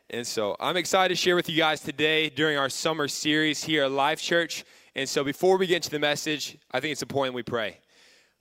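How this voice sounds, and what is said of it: Slightly hoarse, lowered voice. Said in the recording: “my voice will probably be higher... you're screaming the entire time that you lose your voice a little bit. So my voice is a little hoarse”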